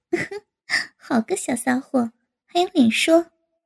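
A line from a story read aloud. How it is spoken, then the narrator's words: Scoffing, then laughing. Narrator (Chinese): 高芳哼了一声，忽又笑道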